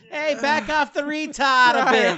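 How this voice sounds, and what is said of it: Boston accent. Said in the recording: “I always throw it in the Boston accent”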